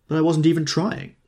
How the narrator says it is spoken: he explained indignantly

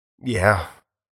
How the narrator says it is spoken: Foster mumbled

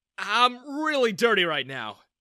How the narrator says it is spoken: I exclaimed

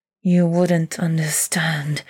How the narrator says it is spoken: he hisses through pink teeth

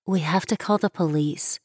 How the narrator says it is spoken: Shelley said under her breath

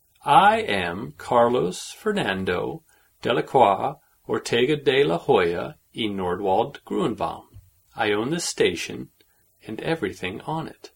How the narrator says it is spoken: he said in a slow voice, as if talking to an idiot

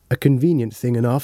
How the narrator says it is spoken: said Dr

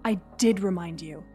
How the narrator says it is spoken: he growled

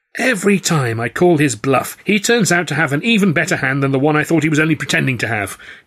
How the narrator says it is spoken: he cried

